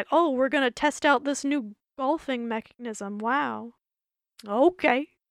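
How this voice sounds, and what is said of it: Poor Muppet character voice, strained. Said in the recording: “that was a bad Bobo impression. I can usually do such a better Bobo impression when my voice isn't shot”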